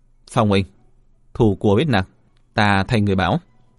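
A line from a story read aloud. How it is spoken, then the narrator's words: Solemn. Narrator (Vietnamese): Diệp Viễn thần sắc nghiêm nghị nói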